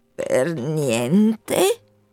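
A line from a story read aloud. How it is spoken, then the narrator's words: Deep-voiced question. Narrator (Italian): chiese con voce fonda il Procolo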